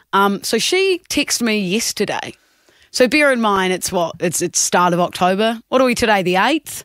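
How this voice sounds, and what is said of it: New Zealand accent. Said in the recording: “Obviously, I'm from New Zealand, Kia ora, if you didn't tell by the accent.”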